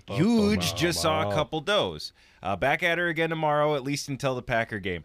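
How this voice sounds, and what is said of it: Yooper accent. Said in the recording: “I started adopting a Uper accent reading that just naturally.”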